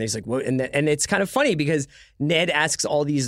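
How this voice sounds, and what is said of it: Usual voice. Nothing is said of it.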